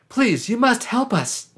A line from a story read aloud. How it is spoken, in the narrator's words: pleaded